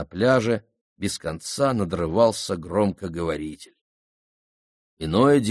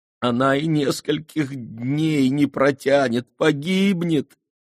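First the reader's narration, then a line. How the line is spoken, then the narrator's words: Sobbing. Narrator (Russian): рыдала Майя Деви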